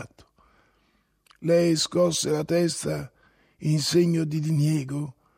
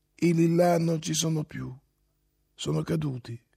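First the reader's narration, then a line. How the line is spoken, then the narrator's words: Plain. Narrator (Italian): rispose Olga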